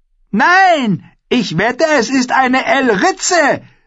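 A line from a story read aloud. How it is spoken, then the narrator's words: Shouted. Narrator (German): schrie die fette Walda Bolton von Caitlins Seite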